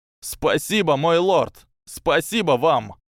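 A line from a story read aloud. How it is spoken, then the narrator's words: Choked sobbing. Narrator (Russian): Послышался звук сдавленных рыданий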